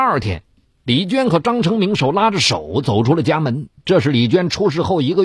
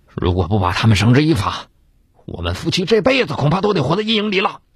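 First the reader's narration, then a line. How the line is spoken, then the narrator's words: Murmur. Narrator (Chinese): 张成明喃喃的说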